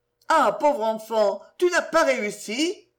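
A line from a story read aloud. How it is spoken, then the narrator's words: Several voices exclaiming. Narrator (French): s'écrièrent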